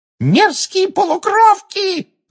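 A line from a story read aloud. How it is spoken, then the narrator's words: Shrieking yell. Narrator (Russian): завопила Амбридж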